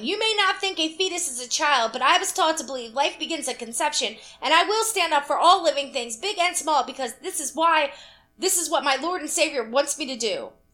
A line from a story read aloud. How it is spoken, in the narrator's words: this absolutely set Karen off, shouting